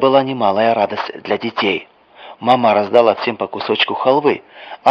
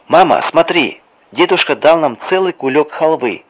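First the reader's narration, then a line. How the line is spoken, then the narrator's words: Shout from doorway. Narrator (Russian): крикнула Вера с порога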